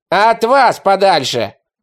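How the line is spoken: Shouting. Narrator (Russian): выкрикнул Нищевок

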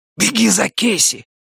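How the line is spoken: Hissing. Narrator (Russian): зашипел я на ботаника

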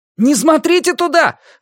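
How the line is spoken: Alarmed shout. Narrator (Russian): осознав, что произошло, крикнул Люган

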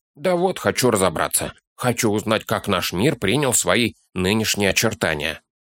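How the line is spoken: Plain. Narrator (Russian): ответил Торин

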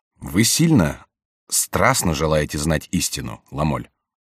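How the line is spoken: Plain question. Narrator (Russian): спросил флорентиец

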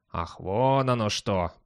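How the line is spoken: Dog's drawl. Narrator (Russian): протянул пес

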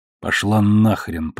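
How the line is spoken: Through gritted teeth. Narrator (Russian): процедил Холден

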